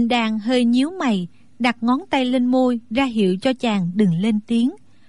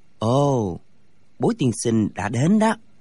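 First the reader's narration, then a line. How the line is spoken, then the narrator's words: Soft. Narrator (Vietnamese): Thạch Phá Thiên khẽ nói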